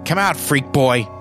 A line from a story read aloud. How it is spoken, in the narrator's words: Billy yelling